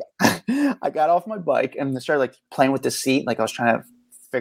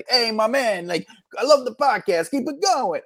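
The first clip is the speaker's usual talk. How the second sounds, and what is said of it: Enthusiastic put-on New York accent. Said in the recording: “I try to act like a New Yorker ... I spoke with like a New York accent, like to the full enthusiast”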